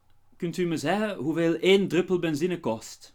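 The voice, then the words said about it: Bad put-on West Flemish accent. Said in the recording (Dutch): “accent... Oh, dat was een heel slecht accent... West-Vlaams?... er kwam een haaklank in uw kost”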